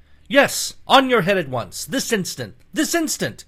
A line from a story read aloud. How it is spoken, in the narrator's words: Everyone shouted